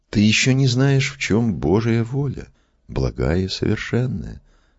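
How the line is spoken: Gentle calm reply. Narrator (Russian): ласково и спокойно отвечал Иоанн

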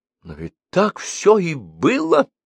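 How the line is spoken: Astonished exclamation. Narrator (Russian): воскликнула пораженная Вера

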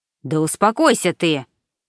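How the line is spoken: Sharp shout. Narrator (Russian): прикрикнул

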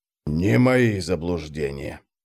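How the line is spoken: Barely audible hiss. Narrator (Russian): прошипел он еле слышно

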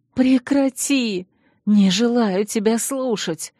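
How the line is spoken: Indignant choked rasp. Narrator (Russian): возмущенно прохрипела я, пытаясь вырваться из душащих объятий

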